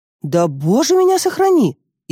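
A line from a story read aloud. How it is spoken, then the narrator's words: Sincere exclamation. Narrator (Russian): искренне воскликнула она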